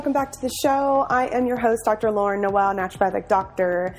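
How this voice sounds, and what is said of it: Slightly nasal, congested voice. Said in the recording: “I sound a little nasally, that's because I am just fighting off a cold”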